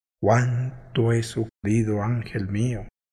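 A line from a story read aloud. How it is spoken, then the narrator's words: Murmuring. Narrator (Spanish): murmuró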